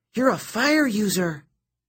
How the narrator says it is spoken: Nissa cried

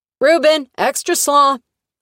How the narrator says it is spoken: a woman yelled

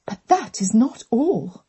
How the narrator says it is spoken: their mother hissed

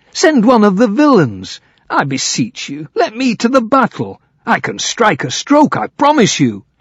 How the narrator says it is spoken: he cried

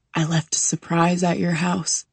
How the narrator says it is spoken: he whispers in my ear

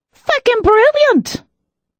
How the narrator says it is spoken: Danny exclaimed

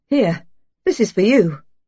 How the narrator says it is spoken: she said brightly

